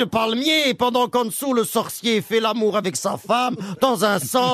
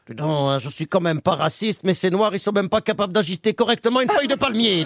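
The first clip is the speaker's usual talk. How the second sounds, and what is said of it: Put-on Belgian French accent. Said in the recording (French): “c'était un marathon d'accent belge”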